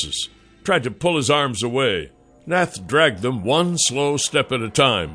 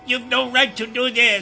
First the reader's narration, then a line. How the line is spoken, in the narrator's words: Snargle yelled